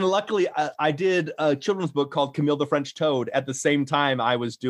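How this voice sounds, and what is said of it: Usual voice. Nothing is said of it.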